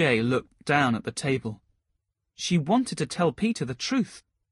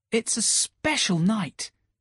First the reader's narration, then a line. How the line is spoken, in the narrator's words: Peter replied brightly